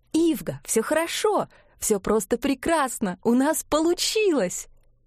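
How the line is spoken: Euphoric laughter. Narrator (Russian): Эгле хохотала в эйфории

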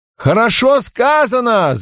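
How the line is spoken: Shouting. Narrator (Russian): закричал Мандор

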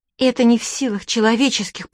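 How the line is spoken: Muttering under breath. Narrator (Russian): пробормотала она под нос

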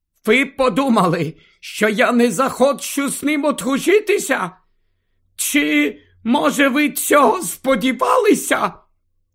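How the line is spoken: Exclaimed. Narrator (Ukrainian): Флер вигукнула ці слова

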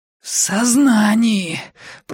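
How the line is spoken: Hoarse wheeze. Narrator (Russian): просипела я в ответ

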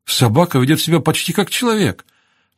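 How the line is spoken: Admiring exclamation. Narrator (Russian): восхищенно воскликнула Кэтрин

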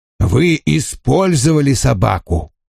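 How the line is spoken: Icy cold tone. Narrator (Russian): продолжил Вульф ледяным тоном, напомнившим мне Арнольда Зека

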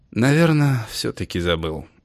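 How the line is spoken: Sighing. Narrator (Russian): вздохнул Августин

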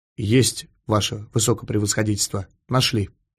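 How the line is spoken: Quiet report. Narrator (Russian): негромко доложил он

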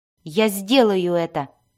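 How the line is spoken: Snapped. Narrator (Russian): огрызнулся Дзирт

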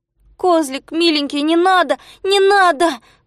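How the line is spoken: Pleading. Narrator (Russian): взмолился Незнайка

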